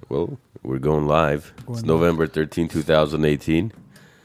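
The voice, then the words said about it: Hoarse, sick-sounding voice. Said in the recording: “my under-the-weather voice ... it's not so sexy today. It sounds like it's coming from somebody's asshole, echoing”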